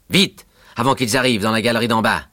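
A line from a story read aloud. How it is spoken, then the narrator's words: Shouting. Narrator (French): crie Lyca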